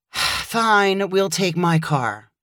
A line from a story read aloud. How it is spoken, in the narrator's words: Kaylee groaned before saying